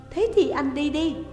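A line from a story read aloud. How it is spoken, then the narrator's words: Annoyed pouting exclamation. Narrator (Vietnamese): cô gái kêu lên với đôi môi dẫu ra khó chịu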